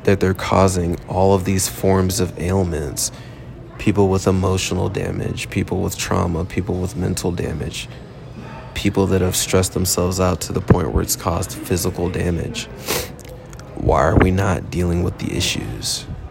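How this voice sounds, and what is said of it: Rough, worn-out voice quality. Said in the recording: “my voice is at a little bit of a messed up quality. Haven't really slept in about 24 hours plus.”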